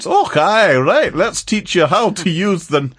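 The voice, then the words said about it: Bad put-on Scottish accent. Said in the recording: “crazy Scottish accents ... Another bad accent.”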